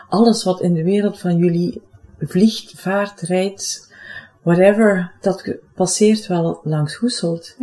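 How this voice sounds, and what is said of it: Limburg Flemish accent. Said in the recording (Dutch): “Ik woon zelf in Limburg, voor het geval mijn accent me nog niet zou verraden hebben.”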